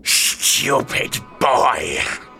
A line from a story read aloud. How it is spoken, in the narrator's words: he growled